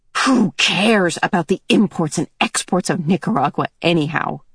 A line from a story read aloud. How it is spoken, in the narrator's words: she muttered